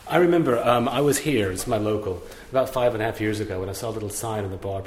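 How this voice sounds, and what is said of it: American Texan accent. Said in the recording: “accent is not a Kennington ... I'm from Dallas, Texas originally, via Boston.”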